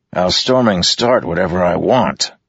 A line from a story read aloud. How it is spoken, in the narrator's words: Teft snapped